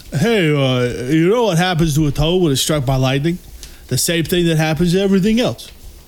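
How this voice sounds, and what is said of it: Imitates another person's voice. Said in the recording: “That was not a good impression. ... It's a Rocky / Sylvester Stallone ... you changed your voice”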